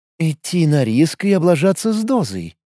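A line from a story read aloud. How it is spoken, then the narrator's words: Thoughtful drawl. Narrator (Russian): задумчиво протянула Мариша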